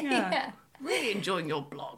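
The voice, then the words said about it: Put-on posh English accent. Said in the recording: “your dad has a posh accent there ... he doesn't sound like that at all. He's got a Scouse accent.”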